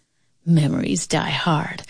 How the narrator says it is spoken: Uncle Jim whispered to Tanya

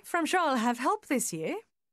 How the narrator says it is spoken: she added, her voice light and gay

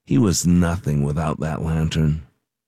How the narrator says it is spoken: A few talked under their breath and said

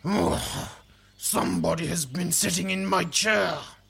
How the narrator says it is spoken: he bellowed in his big, growly voice

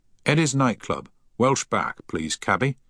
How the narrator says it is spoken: he said firmly

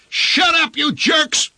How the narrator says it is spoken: yelled

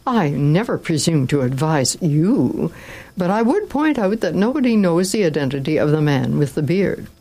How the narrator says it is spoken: exclaimed Don Camillo

